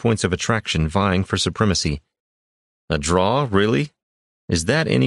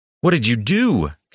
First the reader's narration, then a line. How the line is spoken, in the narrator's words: Kairos shouted, aghast